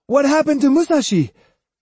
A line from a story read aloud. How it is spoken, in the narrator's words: unable to sit still any longer, Hyosuke shouted